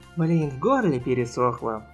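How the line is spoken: Groaning. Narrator (Russian): простонал Кирик

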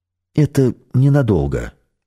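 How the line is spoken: Plain. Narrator (Russian): сказал шеф

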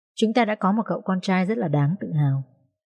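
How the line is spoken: Smiling, near tears. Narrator (Vietnamese): Bà Giang mỉm cười, đôi mắt khẽ rưng rưng

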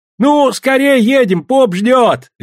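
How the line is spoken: Cheerful shout. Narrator (Russian): весело крикнул Силин

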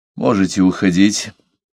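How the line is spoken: Weary. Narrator (Russian): устало сказал Парсел

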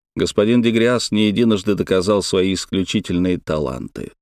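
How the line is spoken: Plain. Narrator (Russian): сказал я

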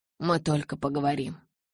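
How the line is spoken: Quiet. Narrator (Russian): тихо сказал Эдвард Белли

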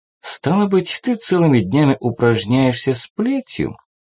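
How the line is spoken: Innocent tone. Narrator (Russian): невинным тоном уточнила Дженнифер

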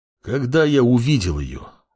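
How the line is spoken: Sighed. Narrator (Russian): вздохнул паладин

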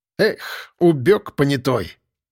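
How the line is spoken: Angry. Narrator (Russian): зло выплюнул окурок участковый

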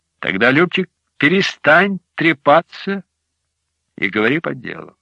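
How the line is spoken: Soft request. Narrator (Russian): попросил я мягко

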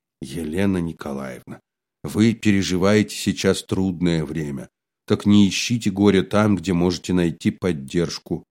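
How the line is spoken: Soft gentle speech. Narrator (Russian): произнес мягко

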